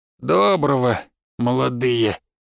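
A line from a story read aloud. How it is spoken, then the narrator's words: Unkind creaky voice. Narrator (Russian): недобро проскрипел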